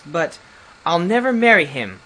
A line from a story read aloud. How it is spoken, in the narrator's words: cried poor Melinda, her streaming eyes